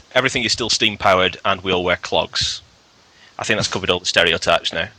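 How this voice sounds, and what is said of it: Northern English Lancashire accent. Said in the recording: “he thought I was Scottish ... I'm actually from Lancashire, which is in the northwest of England ... The key points about the Lancashire accent are this. Most of the vowel sounds are flattened, but the double O sound is elongated.”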